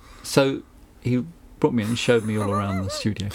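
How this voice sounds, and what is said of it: Southern English accent. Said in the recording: “as you can hear from my accent, I don't have a Kent accent ... I have obviously a South accent as opposed to a Northern accent”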